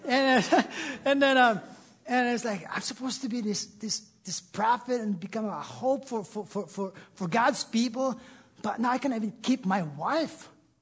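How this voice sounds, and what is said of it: Noticeable non-native English accent. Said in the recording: “Did I say that right? I have an accent.”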